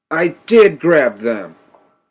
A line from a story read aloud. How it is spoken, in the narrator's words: he still felt that it was pertinent to yell at me